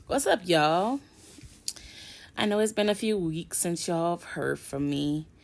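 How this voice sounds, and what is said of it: Slightly hoarse, recovering voice. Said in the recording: “my voice is still kind of a little fucked up ... being hoarse to where I couldn't talk at all most days ... I'm gaining my voice back little by little”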